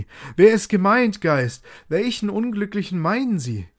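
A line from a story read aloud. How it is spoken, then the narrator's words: Shout. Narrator (German): Scrooge schrie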